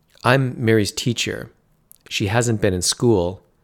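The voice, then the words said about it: Serious tone of voice. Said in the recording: “she used her serious voice.”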